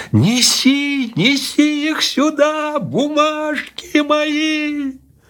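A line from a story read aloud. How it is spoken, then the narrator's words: Louder shout. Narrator (Russian): закричал еще громче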